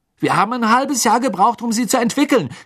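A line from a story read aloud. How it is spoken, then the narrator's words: Screaming angrily. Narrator (German): schrie Fred seine Mutter an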